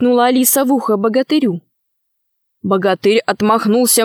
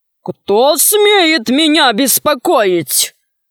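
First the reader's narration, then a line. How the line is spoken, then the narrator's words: Menacing question. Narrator (Russian): спросил он грозно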